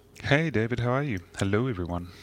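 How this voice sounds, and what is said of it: Polished radio announcer voice. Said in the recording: “It's my radio voice ... you have a good radio voice”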